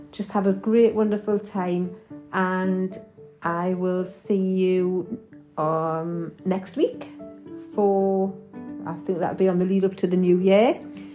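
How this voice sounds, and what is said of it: Geordie accent. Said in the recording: “my Geordie accent”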